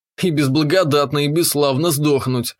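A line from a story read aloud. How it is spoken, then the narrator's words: Snort. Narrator (Russian): хмыкнул я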